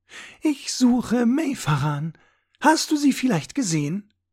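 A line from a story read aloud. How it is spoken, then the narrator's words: Sugary sweet voice. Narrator (German): sagte sie mit zuckersüßer Stimme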